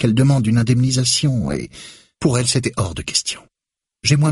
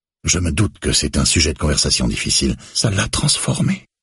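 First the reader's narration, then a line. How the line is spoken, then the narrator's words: Murmured. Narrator (French): murmure Grace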